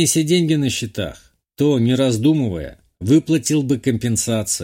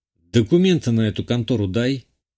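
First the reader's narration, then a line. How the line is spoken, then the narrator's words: Grim order. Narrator (Russian): мрачно велел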